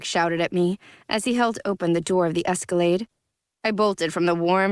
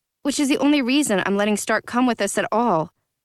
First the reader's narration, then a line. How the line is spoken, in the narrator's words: I said